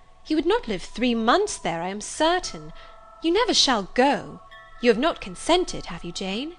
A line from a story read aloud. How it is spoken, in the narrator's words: exclaimed